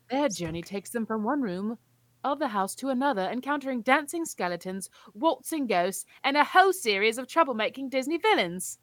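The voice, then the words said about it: Dramatic put-on accent. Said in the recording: “I had to change my accent there. It just sounds cooler. ... This sounds so dramatic.”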